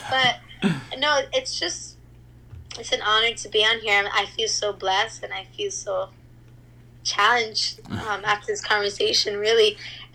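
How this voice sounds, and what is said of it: Mild Cuban accent. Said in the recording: “your Cuban accent. ... my Cuban people don't think I have that much of an accent.”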